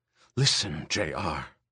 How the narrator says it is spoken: Ermgard whispered harshly in his ear

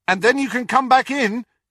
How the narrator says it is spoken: he shouted after her

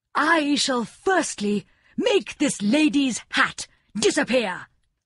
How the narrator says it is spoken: cried the king

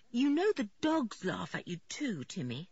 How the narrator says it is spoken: said George earnestly

